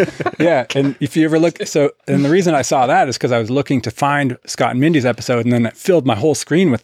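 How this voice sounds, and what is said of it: Usual voice. Nothing is said of it.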